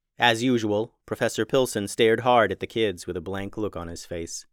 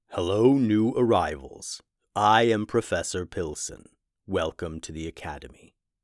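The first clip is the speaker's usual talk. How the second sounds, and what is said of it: Deep character voice. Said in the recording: “A deep voice carried from a person nearby.”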